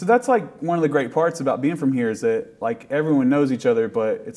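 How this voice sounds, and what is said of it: Appalachian accent. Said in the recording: “being from Appalachia ... people like have made fun of my accent”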